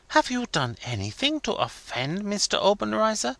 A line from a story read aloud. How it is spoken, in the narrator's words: whispered eagerly